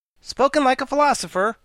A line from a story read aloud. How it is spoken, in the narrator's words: cried the Wogglebug